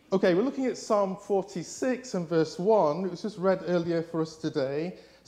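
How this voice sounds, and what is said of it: English accent. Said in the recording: “my accent”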